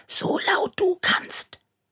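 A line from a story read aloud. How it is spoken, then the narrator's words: Hissing. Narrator (German): zischte Rainer mir zu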